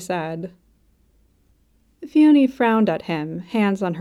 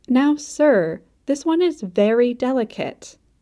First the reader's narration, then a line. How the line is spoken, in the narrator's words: she said firmly